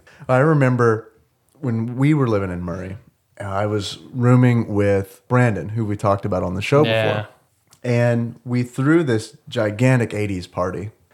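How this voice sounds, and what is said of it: Husky sore-throated voice, sniffling. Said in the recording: “I'm feeling pretty crappy tonight, so if you hear sniffling ... my sultry, sexy voice ... I've got this nice sore throat action going on.”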